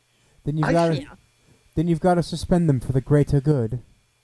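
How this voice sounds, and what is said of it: Put-on English accent. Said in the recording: “you used the English accent there”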